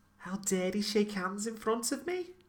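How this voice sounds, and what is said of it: Put-on Scouse accent. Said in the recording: “Scouse is my best accent.”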